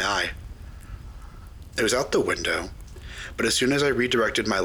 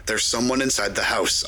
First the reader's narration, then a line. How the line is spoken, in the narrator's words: barked, with extreme adrenaline coursing through me